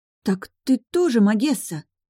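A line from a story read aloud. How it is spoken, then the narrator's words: Frightened gasp. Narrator (Russian): Испуганно выдохнула моя близняшка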